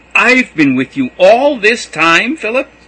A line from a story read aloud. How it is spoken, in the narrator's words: cried Jesus